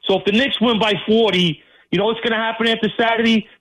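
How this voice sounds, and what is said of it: New York accent. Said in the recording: “Sound like that and be a Celtics fan? ... that's got Knicks fan written all over it with that accent, that delivery.”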